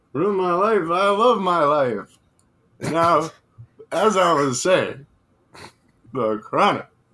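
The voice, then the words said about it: Sounds drunk. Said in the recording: “You sound drunk, not high.”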